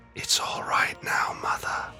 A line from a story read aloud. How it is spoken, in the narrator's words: whispered, his words faint above the continuing hiss of pressurized steam